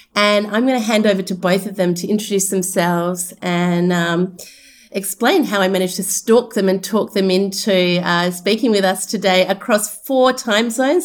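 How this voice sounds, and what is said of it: Australian accent. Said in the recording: “That's my Australian accent showing through.”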